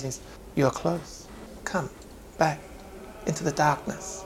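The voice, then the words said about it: Very quiet, swaying character voice. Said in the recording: “he's very quiet ... his voice just sways”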